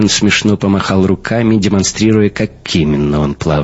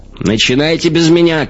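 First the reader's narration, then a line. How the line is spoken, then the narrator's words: Shouted reply. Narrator (Russian): крикнул Хаген в ответ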